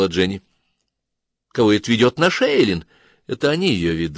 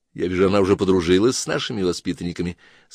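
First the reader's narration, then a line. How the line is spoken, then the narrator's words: Plain. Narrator (Russian): сказала Дина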